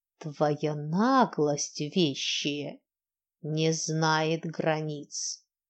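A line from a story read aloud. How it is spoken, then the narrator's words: Angry hiss. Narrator (Russian): Снова злое шипение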